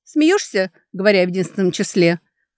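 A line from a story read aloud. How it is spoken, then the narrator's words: Snorting. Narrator (Russian): фыркнула Лидия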